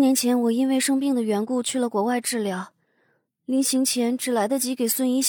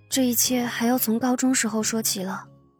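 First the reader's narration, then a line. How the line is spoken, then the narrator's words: Soft, conflicted. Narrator (Chinese): 他才带着一脸的复杂情绪，轻声的说着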